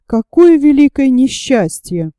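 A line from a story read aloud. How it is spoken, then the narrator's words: Calm remark. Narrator (Russian): Он спокойно заметил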